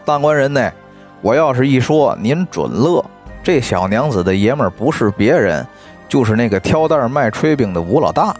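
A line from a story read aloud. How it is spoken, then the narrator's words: Laughing. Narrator (Chinese): 这王婆呀就笑着跟西门庆说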